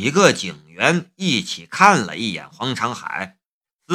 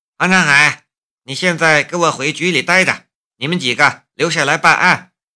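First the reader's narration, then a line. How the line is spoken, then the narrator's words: Stern, sharp voice. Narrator (Chinese): 江如意厉声说道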